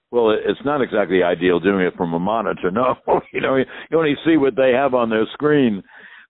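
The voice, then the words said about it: Rich, polished broadcaster's voice. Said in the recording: “the great radio voice”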